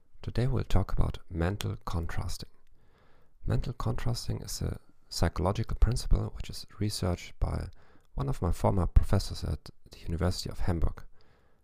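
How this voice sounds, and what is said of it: English with a German accent. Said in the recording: “in English with a German accent”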